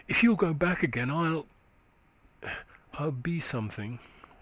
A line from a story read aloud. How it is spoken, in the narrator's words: she said tenderly